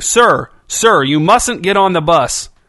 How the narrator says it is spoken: The driver had finally found her voice, her shouting

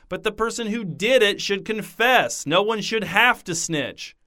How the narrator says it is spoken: she shouted

